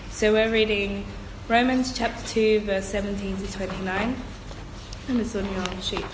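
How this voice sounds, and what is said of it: Congested voice from a cold. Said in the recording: “Sorry for my voice, I've got a bit of a cold.”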